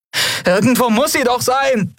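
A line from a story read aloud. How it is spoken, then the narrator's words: Calling out. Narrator (German): rief sie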